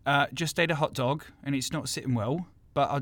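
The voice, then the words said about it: South London speaker attempting American accent. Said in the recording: “me answering my own question as someone with a South London accent trying to do an American accent”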